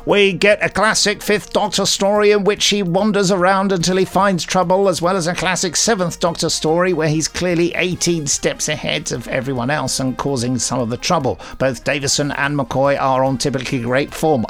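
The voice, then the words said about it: Reads a quote in a funny voice. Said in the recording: “I don't know why I read it out in that funny voice.”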